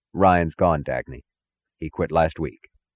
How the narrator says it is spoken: said, his voice as even as hers

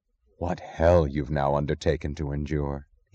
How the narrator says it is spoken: he said, his voice low

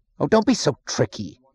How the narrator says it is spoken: he snapped

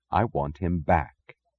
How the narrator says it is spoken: she said softly

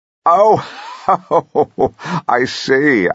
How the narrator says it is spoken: I say, laughing at the idea of Julia Bradbury presenting a show

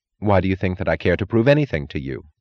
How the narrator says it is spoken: she asked

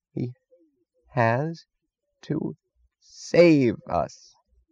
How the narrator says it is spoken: said Mooch slowly, as if straining the last of his mind into blankness and delivering an ultimatum to reality

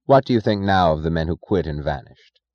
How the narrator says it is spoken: he asked

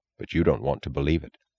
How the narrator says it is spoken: answered gravely

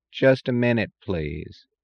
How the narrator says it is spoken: drawled the voice in the impatient tone that resents any effort as an imposition

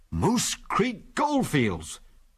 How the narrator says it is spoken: he read in an amazed voice

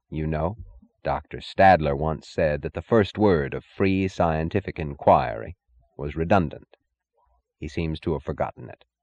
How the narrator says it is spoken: he answered in his even, unhurried drawl

